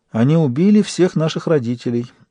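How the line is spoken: Sad. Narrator (Russian): выговорила Лиса печально

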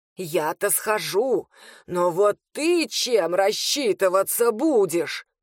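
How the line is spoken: Angry hiss. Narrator (Russian): злобно шипел

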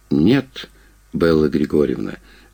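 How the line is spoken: Gentle interruption. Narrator (Russian): мягко перебил я ее

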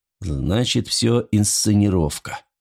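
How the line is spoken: Mumbling. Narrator (Russian): пробормотал он

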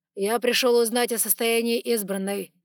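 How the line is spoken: Formal declaring tone. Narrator (Russian): официальным тоном заявил он

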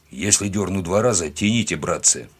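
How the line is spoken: Muffled grumble. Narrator (Russian): пробурчал он сквозь тряпку

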